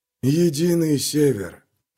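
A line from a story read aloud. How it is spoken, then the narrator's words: Hissing puzzled whisper. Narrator (Russian): проговорил свистящим шепотом, словно это была задача, которую он сам никак не мог решить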